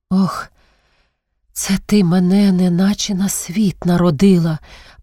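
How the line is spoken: Groaning. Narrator (Ukrainian): простогнавши, мовила вона

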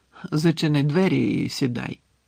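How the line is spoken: Tired. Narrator (Ukrainian): втомлено сказав Дамблдор

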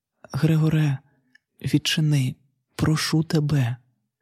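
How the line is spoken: Sister's whisper. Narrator (Ukrainian): сестра прошепотіла

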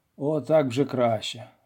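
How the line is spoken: Said with a sigh. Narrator (Ukrainian): мовив Ганелон, зітхнувши

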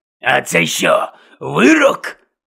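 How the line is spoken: Angry question. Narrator (Ukrainian): сердито запитав Гонт

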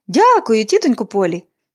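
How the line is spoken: Cheerful exclamation. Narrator (Ukrainian): Поліанна весело вигукнула

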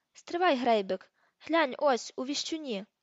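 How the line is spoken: Shouted. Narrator (Ukrainian): Скабіор це вигукнув

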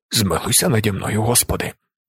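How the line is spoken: Frightened whisper. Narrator (Ukrainian): перелякано шепотів він

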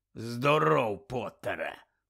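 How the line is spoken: Growled. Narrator (Ukrainian): прогарчав професор

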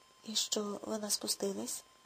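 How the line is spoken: Quiet reluctant question. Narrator (Ukrainian): тихо спитав Рудольф, хоча йому не хотілося чути кінця цієї неприємної історії

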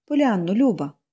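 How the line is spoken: Tender. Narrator (Ukrainian): ніжно розпочала вона

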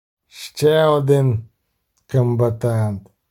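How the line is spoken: Grumbled. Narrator (Ukrainian): буркнув Шелдон Скакс до гномів, які збилися навколо нього

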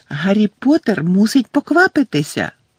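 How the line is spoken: High squeaky voice. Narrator (Ukrainian): пищав Добі

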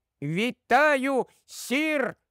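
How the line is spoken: Loud squeak. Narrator (Ukrainian): пропищав він якомога голосніше

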